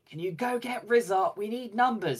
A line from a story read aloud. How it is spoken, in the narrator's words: Lothi yelling to me